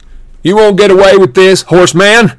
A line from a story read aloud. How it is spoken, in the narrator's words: Luke shouted